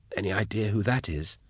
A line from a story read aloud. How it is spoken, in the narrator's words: he whispered to Nail